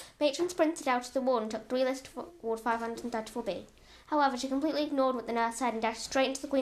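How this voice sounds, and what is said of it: Usual voice. Nothing is said of it.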